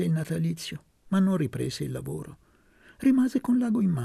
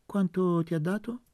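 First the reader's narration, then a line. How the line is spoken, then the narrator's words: Plain. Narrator (Italian): chiese Luca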